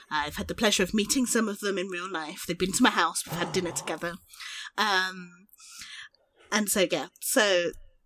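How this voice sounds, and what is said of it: Very posh English accent. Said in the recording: “I have this very posh accent”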